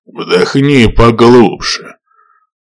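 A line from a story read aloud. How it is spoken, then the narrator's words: Growling. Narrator (Russian): прорычал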